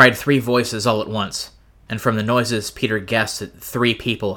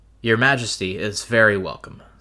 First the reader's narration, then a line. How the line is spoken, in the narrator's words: said Caspian